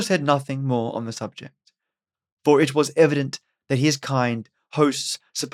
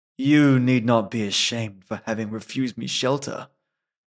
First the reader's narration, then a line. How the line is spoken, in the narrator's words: said Musō